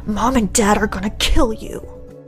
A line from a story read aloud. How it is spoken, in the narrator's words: My brother whisper yelling said